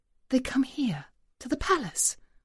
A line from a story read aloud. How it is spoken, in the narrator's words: whispers the supervisor